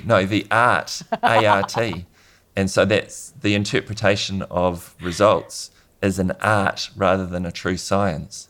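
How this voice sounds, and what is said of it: Thick New Zealand accent. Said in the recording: “that's my thick New Zealand accent for you”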